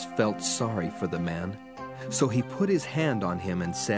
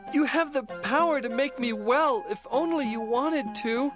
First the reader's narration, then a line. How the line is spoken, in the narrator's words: He begged